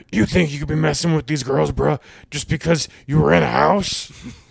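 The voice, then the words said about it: Imitates another person's voice. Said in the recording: “just do a Hulk Hogan impression ... Yeah, Hulk Hogan.”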